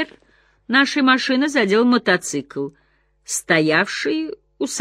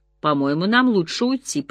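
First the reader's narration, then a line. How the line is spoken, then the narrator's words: Mutter. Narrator (Russian): пробормотала я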